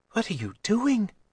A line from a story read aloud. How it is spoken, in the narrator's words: Daedra whispered